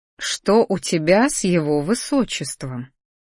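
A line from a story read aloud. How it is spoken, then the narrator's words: Sly, smiling, slow. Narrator (Russian): Хитро прищурившись, медленно растянув улыбку на лице, произнесла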